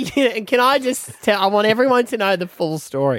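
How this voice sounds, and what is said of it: Usual voice. Nothing is said of it.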